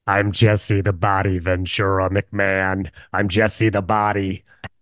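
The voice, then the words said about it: Jesse Ventura impression. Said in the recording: “how bad is this impression? ... That was pretty good.”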